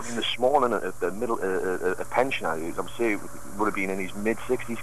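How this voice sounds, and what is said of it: Geordie northeast English accent. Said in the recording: “that's not a Bristol accent. ... what's he just come down from Geordieland?”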